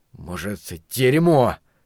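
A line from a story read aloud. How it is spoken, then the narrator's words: Angry. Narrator (Russian): зло бросил Ларри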